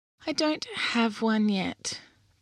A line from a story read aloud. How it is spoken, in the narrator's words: the little unicorn said sadly